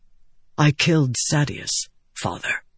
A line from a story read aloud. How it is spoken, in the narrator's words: Adolin whispered